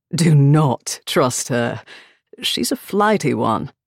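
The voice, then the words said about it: Posh English accent, smoky male voice. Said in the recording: “A posh English accent chuckled three stools down ... sounded like power, smoke, and an impending orgasm”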